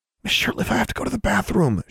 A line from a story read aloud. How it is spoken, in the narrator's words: she whispered